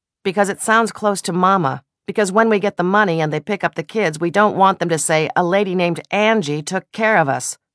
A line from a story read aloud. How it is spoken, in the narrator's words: the man called Bert had snapped